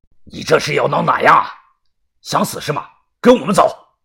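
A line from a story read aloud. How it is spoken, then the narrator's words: Angry roar. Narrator (Chinese): 于哥吼道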